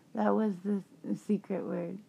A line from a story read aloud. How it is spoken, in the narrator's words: Breathing heavy, whispered